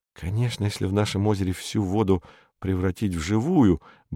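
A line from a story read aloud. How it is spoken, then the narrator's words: Muttering. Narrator (Russian): бормочет Саша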